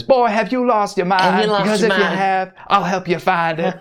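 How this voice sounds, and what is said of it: Bad imitation of TV character's voice. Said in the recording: “that bad Stanley imitation”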